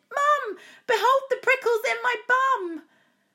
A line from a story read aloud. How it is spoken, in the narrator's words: I shouted